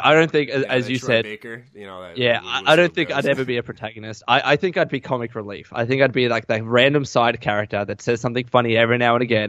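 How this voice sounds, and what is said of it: Australian accent. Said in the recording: “because of my Aussie accent”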